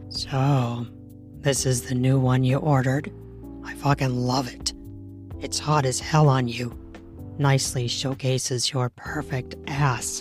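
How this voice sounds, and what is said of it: Lusty male voice. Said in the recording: “He says in a lusty voice.”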